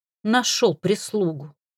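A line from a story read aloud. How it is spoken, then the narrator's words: Lowered grumble. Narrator (Russian): Слегка понизив тон, проворчала Лика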